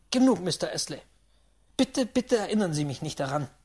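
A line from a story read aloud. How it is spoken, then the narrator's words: Angry shout. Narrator (German): rief ich ärgerlich, beinahe zornig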